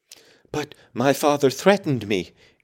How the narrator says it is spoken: gasped the boy

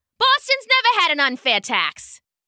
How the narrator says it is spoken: snapped the man

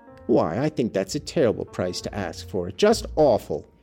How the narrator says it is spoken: exclaimed Hortense sadly

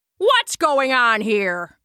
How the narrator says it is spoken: shouted Brunfelja

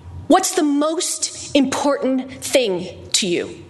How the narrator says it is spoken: said, blurting it out

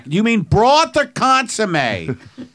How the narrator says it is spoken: Like I would yell back

